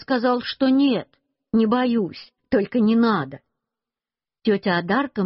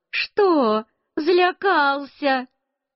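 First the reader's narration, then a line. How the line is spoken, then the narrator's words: Laughing. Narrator (Russian): Тетя Одарка тоже засмеялась и сказала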